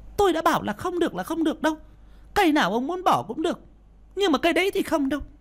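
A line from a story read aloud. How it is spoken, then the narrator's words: Harsh rapid-fire protest. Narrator (Vietnamese): Bà Phẩm gay gắt phản đối, nói như quạt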